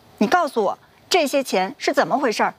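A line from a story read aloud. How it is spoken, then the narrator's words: Suppressed anger, questioning. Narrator (Chinese): 压抑着怒火问道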